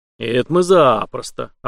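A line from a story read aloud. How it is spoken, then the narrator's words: Joyful group clamor. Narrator (Russian): обрадованно загалдели члены команды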